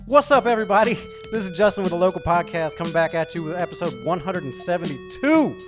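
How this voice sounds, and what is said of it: Hyped club DJ announcer voice. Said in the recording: “Sound like a stripper DJ in the house tonight ... doing this with this voice”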